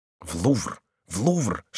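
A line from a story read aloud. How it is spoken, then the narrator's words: Cheerful group whispering. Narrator (Russian): шептали веселые гасконцы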